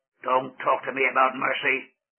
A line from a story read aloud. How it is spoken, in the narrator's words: growled the giant